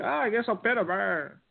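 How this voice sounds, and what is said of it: Terry Funk impression. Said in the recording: “Is that a good Terry Funk impression? ... Yeah, not too bad.”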